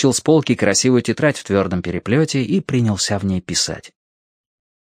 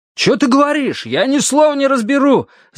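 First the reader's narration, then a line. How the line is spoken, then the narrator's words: Yelling back. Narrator (Russian): заорал в ответ Дин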